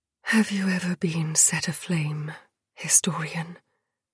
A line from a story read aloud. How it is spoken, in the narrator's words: She asked softly